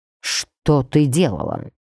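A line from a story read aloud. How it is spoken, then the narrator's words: Growled. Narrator (Russian): прорычал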